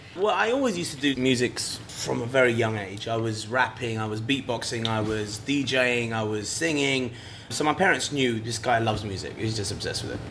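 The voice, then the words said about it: British accent. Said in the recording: “obviously from the UK over here. So hear the awesome accent actually in there.”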